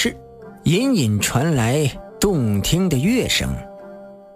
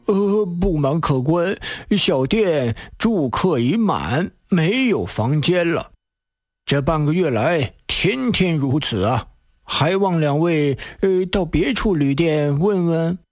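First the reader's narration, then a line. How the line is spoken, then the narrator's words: Ingratiating, smiling innkeeper. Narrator (Chinese): 掌柜见是客商穿扮，忙堆起笑脸作记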